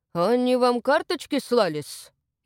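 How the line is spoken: Snide interjection. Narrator (Russian): ехидно ввернул Игнат

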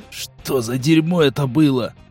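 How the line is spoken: Groaning, struggling up. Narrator (Russian): простонал Серый, не без труда поднимаясь на ноги

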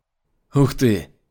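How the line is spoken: Surprised exclamation. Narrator (Russian): Воскликнул он в удивлении

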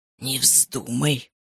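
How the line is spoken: Hiss. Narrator (Russian): прошипел он

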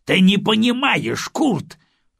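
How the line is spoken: Irritated interruption. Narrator (Russian): раздраженно прервал его Гудериан

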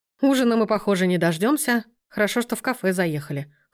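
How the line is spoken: Snort. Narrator (Russian): хмыкнул Сергей

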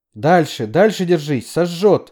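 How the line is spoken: Shouting. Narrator (Russian): закричала Хелен

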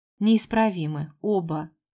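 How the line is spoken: Father's smirking grunt. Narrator (Russian): хмыкнул отец парней

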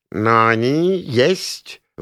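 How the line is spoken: Spiteful sing-song. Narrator (Russian): вреднейшим голосом с потолка пропел мой фамильяр

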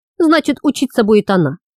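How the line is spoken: Calm. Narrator (Russian): спокойно ответил Плежин

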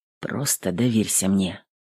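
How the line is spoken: Soft. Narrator (Russian): тихо сказал он

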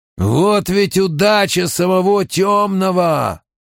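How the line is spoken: Growling. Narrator (Russian): прорычал еще один игрок

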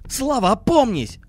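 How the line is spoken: Exclaimed. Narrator (Russian): воскликнул Акимов

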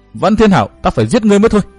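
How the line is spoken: Roaring ghostly shout. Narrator (Vietnamese): quỷ ảnh Quan Âm gầm hét nói

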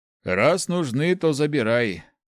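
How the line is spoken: Sighing. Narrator (Russian): вздохнул отец

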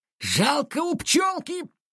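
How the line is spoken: Roared. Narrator (Russian): проревел Саныч

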